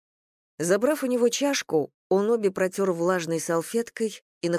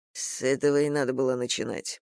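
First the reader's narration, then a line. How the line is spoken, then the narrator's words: Grumbled. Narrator (Russian): проворчал Логов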